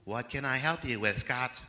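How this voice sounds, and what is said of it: Poor impression of Siri. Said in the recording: “Terrible impression.”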